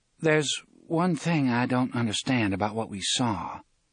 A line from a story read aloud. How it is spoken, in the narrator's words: Susanna said hesitantly